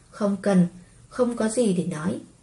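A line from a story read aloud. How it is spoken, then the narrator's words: Cold, frowning. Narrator (Vietnamese): Liễu Vi Dung nhíu mi, lạnh lùng nói với Liễu Tương Nhã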